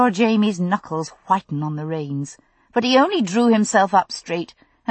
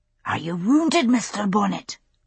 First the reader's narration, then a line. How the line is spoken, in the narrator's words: Ian spoke in a loud whisper, just audible over the rattle of the wagon